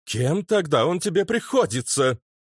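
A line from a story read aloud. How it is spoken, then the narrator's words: Grandiloquent exclamation. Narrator (Russian): Патетически воскликнули бы гуми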